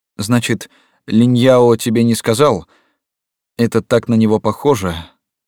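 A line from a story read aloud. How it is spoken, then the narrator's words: Sighed. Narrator (Russian): вздохнула Юлань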